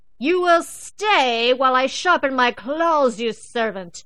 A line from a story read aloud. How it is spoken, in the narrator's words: Ginger would bellow